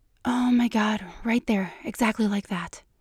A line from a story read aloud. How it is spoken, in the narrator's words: says softly